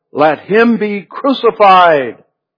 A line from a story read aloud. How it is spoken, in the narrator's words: the whole world cried out